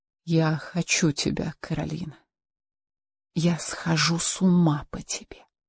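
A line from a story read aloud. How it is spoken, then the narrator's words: Barely audible whisper. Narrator (Russian): Рауль прошептал едва слышно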